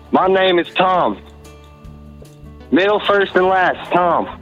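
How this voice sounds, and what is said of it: Put-on Southern accent. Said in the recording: “this accent is very, very hard, 6 out of 10 ... as someone from the South, I am very offended by whatever accent thing you're doing”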